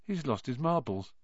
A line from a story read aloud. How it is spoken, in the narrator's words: Ron muttered in Harry's ear